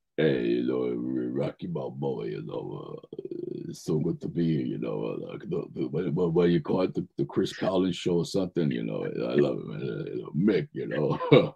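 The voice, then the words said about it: Rocky Balboa impression. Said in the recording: “who do you do impressions of? You've got to do an impression or two now.”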